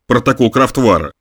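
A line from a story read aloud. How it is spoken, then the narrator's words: Snort. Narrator (Russian): фыркнул Замойский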